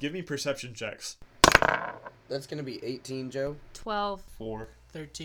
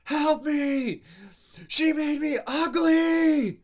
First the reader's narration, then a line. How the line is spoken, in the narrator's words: He yells